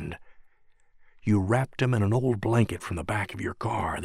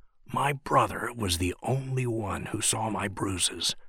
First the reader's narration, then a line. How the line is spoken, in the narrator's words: the voice whispered against our ears